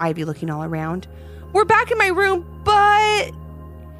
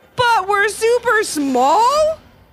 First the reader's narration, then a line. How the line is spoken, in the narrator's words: shouted Levi in a panic